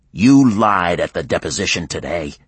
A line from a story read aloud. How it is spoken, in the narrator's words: he growled at Cheryl through a throat tight with fury